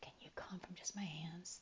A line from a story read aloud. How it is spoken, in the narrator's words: he whispers